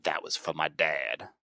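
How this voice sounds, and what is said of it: Vaguely southern accent. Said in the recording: “I don't know why he's got like a vaguely southern accent”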